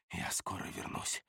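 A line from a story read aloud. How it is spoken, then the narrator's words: Whisper. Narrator (Russian): прошептал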